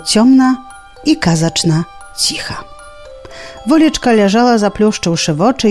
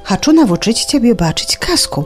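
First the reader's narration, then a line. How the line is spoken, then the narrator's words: Answer with sudden sigh. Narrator (Belarusian): адказала ноч і раптоўна уздыхнула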